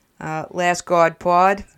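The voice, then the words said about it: Put-on Boston accent. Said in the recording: “My Boston accent.”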